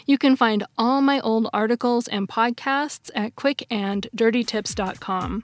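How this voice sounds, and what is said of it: Slightly congested, weird-sounding voice. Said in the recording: “I think I'm coming down with a little cold. I'm sorry if my voice sounds weird today.”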